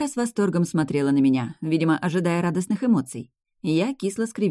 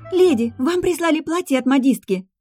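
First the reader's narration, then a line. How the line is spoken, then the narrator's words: Exclaiming. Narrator (Russian): воскликнула Лара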